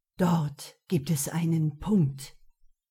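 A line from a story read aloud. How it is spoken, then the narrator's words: Low murmur. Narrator (German): raunte Neo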